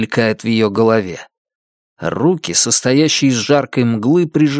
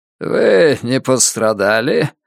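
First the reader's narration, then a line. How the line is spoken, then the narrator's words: Strange creaky voice. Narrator (Russian): спрашивает ее человек странным скрипучим голосом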